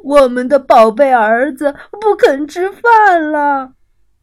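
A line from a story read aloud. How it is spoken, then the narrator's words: Despairing, crying, sad shout. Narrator (Chinese): 鳄鱼爸爸和鳄鱼妈妈彻底失望了，他们哭了起来，伤心的喊道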